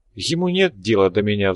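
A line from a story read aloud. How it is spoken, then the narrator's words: Sighing young woman. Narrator (Russian): вздохнула девушка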